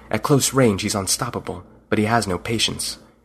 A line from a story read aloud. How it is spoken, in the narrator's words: He whispered